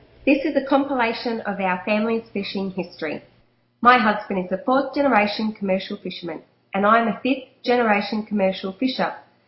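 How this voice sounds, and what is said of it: Australian accent. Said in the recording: “Who's Australian, so here comes the Australian accent.”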